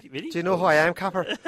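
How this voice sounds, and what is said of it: Put-on Irish accent. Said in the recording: “Do it with the Irish accent, really.”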